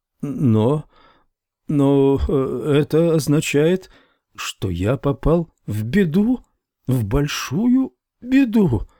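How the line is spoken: Stammering. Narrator (Russian): заикаясь, сказал он

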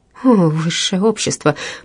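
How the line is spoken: Mutter. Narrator (Russian): пробормотала она

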